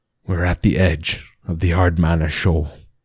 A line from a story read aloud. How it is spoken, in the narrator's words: mumbled the sounding man